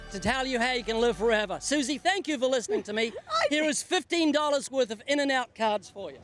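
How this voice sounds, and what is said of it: Speaks with an unusual accent. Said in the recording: “this little guy with a weird accent”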